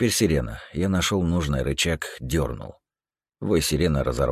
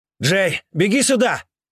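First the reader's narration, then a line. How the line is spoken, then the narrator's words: Shouting. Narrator (Russian): крикнул Серега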